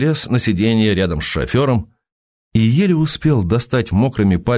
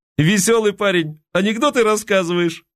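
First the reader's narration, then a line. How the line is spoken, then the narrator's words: Mischievous youthful guffaw. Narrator (Russian): озорно, молодо захохотал шофер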